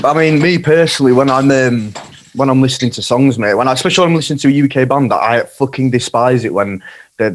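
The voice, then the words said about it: Yorkshire English accent. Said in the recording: “I'm from Yorkshire, man. My accent might be a bit cringy”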